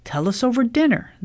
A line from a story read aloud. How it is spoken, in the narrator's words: interrupted kindly